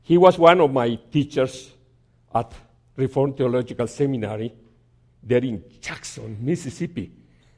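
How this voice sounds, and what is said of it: Strong accent, hard to understand. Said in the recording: “it's difficult for you to pick up my accent”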